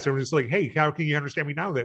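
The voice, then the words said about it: Very fast sped-up speech. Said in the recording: “Listening to us at 1.25 speed or something. Let me do that real fast... I'm talking so fast”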